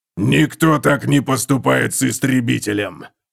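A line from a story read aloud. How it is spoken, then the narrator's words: Growled. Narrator (Russian): прорычал он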